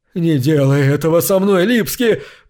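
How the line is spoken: Hoarse wheeze. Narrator (Russian): просипел Пирота

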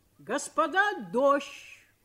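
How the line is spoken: Shout. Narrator (Russian): крикнул кто-то

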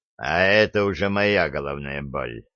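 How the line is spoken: Gloomy. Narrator (Russian): мрачно сказал Джо

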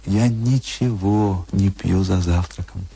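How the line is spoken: Plain. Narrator (Russian): сказала она

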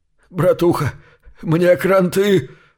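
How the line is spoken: Wounded man's moan. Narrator (Russian): простонал раненый

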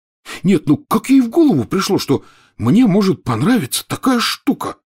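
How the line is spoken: Stunned exclamation. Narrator (Russian): потрясенно глядя в пространство, воскликнул Рон

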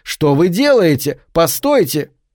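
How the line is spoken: Loud shout in ear. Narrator (Russian): громко крикнул ей прямо в ухо

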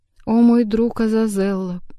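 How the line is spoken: Weak pained moan. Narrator (Russian): простонал кот, истекая кровью

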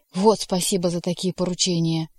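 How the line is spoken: Offended exclamation, grumbling. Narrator (Russian): обидевшись, воскликнул рыжий и проворчал

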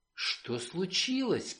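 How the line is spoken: Whisper. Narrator (Russian): прошептала она

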